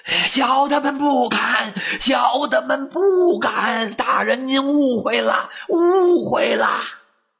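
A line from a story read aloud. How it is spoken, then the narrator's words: Trembling chorus shout. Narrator (Chinese): 老友们齐声哆嗦着喊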